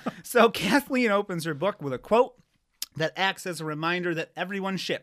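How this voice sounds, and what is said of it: Usual voice. Nothing is said of it.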